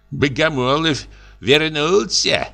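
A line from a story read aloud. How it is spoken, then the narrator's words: Women laughing, talking. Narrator (Russian): бабы смеялись и говорили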